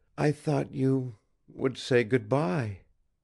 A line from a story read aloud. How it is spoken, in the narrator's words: she whispered just audibly